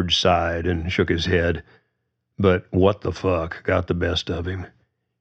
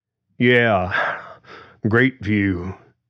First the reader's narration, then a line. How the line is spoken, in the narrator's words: George said flatly, panting a little